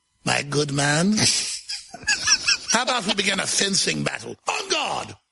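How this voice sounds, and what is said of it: Put-on British accent. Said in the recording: “speaking in a British accent ... in this accent ... It's a good English accent.”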